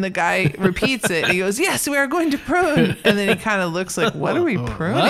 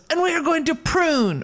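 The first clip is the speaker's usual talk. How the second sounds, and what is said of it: Put-on accent. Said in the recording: “I shouldn't do an accent. ... I need to stop doing an accent.”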